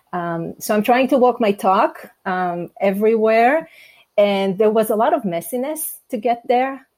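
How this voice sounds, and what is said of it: Non-native English accent. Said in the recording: “the accent, the being different ... it's my second language”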